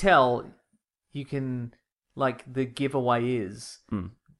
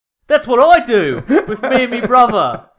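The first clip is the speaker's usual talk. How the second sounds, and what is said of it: Convincing put-on Cockney accent. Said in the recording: “Your Cockney accent is exactly like Christian Bale's Cockney accent. I'm not even kidding. Like, yeah. That was dead on.”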